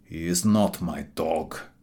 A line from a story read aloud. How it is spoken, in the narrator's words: replied the man sullenly